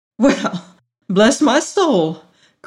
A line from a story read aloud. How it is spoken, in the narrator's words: cried